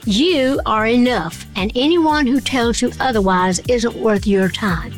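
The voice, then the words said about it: Lovely American accent. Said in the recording (Danish): “den meget, meget lækre amerikanske accent”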